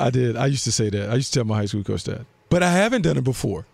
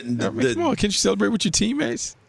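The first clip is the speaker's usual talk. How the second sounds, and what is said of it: Imitates a high school coach. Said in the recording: “Don't I sound just like a high school coach? ... You sound down. Just like a high school ... Coach.”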